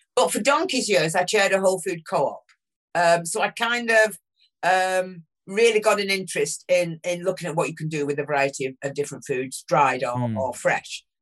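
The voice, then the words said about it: Northern English accent. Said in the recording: “I'm just an ordinary working class, red brick, northern, you can tell from the accent,”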